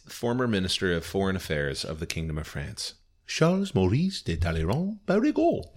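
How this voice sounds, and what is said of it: Put-on French accent. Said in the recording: “You do the French accent ... thing.”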